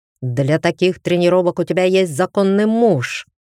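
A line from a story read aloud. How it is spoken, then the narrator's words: Demonic growl. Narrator (Russian): Прорычал он изменившимся демоническим голосом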